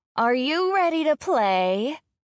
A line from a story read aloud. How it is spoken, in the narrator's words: They scream